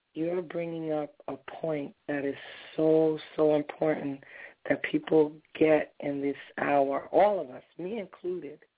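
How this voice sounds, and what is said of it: Hoarse, strained voice. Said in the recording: “I'm dealing with a little bit of laryngitis, so please forgive the way I sound.”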